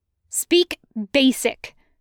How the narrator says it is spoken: the girl snapped

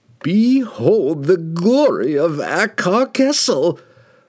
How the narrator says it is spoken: the wizard cried, his voice magnified to deafening proportions by the power of the relic he held

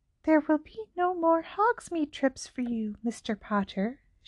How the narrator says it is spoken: whispered

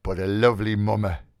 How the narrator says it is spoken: he murmured to himself

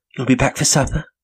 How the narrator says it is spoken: she asked me

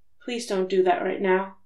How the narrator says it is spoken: he said softly

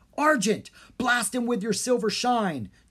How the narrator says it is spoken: Jean yelled

